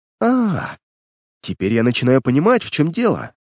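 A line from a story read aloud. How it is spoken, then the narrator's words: Joyful exclamation. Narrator (Russian): радостно воскликнул Дик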